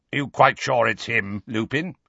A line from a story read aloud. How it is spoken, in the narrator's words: he growled